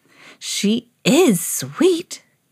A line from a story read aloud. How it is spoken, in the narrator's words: gasped the woman